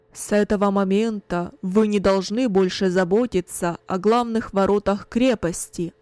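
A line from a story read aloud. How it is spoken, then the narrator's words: Loud commanding announcement. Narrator (Russian): Кунерих громко, властным голосом объявил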